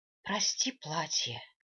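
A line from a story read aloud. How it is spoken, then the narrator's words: Whispered. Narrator (Russian): прошептала я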